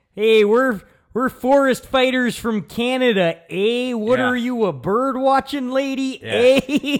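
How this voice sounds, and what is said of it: Exaggerated fake Canadian accent. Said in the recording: “a really great fake Canadian accent ... he's leaning into it”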